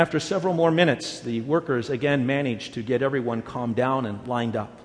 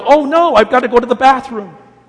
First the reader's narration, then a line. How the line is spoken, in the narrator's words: suddenly one of them yelled